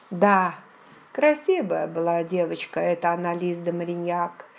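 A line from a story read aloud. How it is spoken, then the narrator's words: Nostalgic sigh. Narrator (Russian): Ностальгически вздохнул Джейми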